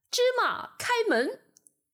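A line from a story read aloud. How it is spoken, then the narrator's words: Shouted in imitated voice. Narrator (Chinese): 阿里巴巴学着强盗头子的声音大喊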